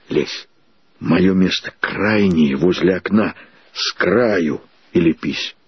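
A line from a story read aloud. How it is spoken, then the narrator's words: Whisper. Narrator (Russian): прошептал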